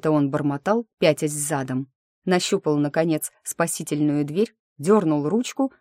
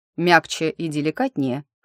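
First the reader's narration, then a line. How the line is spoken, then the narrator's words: Wry snort. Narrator (Russian): хмыкнул он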